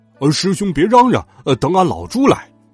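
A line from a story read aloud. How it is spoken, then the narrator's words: Loud shout. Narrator (Chinese): 高叫道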